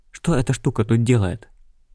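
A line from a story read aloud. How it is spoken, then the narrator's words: Breathless exhale. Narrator (Russian): выдохнула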